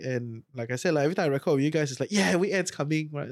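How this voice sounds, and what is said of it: Rough, sick-sounding voice. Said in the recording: “my voice is quite bad this week, right? So I'm down with a flu”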